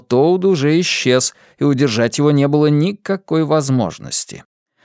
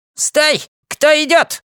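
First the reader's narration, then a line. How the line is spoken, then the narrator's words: Sharp shout. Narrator (Russian): крикнул он резким голосом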